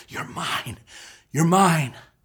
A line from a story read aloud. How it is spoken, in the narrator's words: you hear him whisper